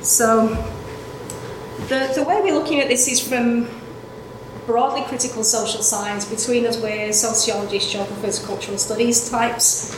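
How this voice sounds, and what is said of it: Thick Manchester English accent. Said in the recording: “The accent's from Manchester, by the way. It's really thick at the moment”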